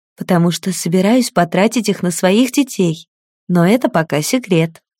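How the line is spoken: Smiling whisper. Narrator (Russian): с улыбкой шепнула

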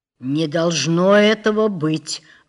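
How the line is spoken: Muffled strained voice. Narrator (Russian): глухо, как чревовещатель, выжил из себя начальник тюрьмы

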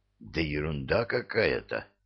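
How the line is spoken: Hissing whisper. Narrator (Russian): свистящим шепотом ответил

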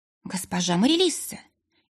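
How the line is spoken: Healer's frightened gasp. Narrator (Russian): испуганно ахнула целительница

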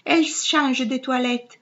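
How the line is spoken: Sighing. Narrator (Italian): disse, e sospirò

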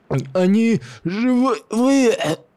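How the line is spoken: Hoarse, bleeding man. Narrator (Russian): Прохрипел истекающий кровью похоронщик

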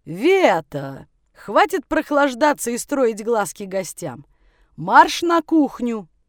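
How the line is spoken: Booming mannish voice. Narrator (Russian): Мужеподобный голос прогремел на всю таверну

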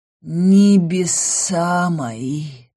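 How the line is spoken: Hoarse grim rasp. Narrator (Russian): прохрипел он, отвечая так, будто собирался пойти в смертельный бой и никогда не вернуться

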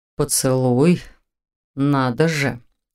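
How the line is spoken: Surprised drawl. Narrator (Russian): удивленно протянул он

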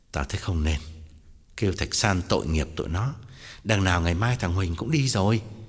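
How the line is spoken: Sighing, feigned gentlemanly interruption. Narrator (Vietnamese): Tòng thở dài ngắt lời, làm ra vẻ quân tử

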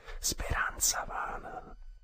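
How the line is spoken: Murmuring. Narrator (Italian): ella mormorò

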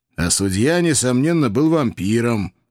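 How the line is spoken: Snorting. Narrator (Russian): фыркнул я

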